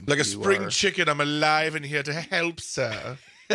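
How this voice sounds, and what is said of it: Clumsy put-on accent. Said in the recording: “whatever that attempt at an accent was”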